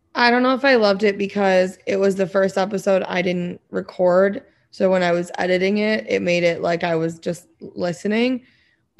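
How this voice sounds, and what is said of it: Slightly hoarse voice. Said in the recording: “I'm a little bit missing my voice tonight ... It sounds a little hoarse.”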